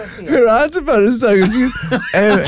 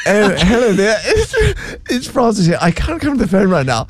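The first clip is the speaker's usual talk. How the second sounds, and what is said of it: Put-on posh proper phone voice. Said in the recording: “where's that voice come from? That's not how you talk. ... put on a proper voice ... that voice, she's like Mrs. Bouquet”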